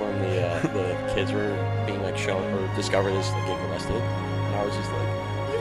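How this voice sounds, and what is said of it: Usual voice. Nothing is said of it.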